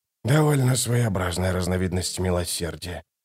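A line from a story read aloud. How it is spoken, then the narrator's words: Muttered, holding back nausea. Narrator (Russian): пробормотал Ток, сдерживая рвотные позывы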